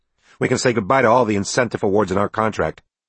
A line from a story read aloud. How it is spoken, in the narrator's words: Brown had replied angrily